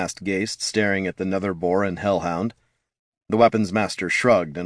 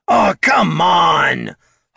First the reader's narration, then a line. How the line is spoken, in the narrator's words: hollered Bert